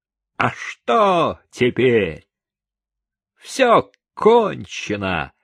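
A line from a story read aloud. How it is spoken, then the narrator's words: Angry exclamation. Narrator (Russian): Чико сердито воскликнул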